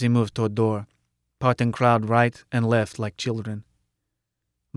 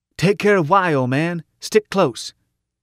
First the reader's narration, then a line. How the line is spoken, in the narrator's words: Shouted over shoulder